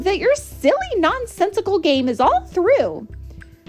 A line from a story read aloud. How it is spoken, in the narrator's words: snapped the big kangaroo